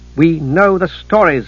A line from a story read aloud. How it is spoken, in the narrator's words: the decider said sharply